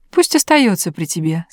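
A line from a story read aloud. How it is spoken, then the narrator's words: Plain. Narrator (Russian): сказал король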